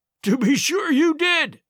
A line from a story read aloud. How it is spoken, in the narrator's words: he cried